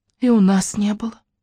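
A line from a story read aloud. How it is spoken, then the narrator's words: Sighing teacher. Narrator (Russian): вздохнула детсадовская воспитательница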